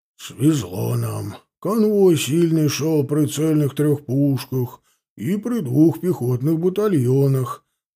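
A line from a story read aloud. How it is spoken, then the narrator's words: Deep bass, stocky man. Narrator (Russian): пробасил шагающий вторым крепыш Степан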